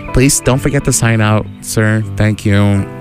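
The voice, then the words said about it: Clingy receptionist character voice. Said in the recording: “That was my impression of a clingy receptionist.”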